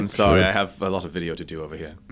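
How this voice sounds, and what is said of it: Soft British-ish put-on accent. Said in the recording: “That was just a British. soft British-ish accent.”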